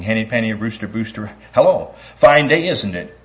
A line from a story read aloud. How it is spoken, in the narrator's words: giggled